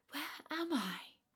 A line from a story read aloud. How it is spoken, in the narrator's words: asked she, and her voice sounded ethereal, as the voice of those who were with her